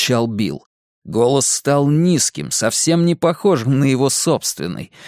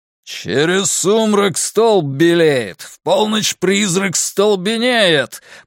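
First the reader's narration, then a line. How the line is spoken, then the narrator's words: Booming. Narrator (Russian): прогремел Билл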